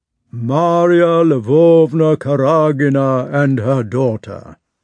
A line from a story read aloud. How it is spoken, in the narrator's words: announced the Countess's gigantic footman in his bass voice